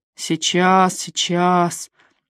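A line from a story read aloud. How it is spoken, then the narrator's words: Muttering. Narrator (Russian): бормотал мистер Суини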